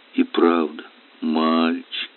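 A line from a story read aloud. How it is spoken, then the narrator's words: Tender and sad. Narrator (Russian): ласково и печально проговорила она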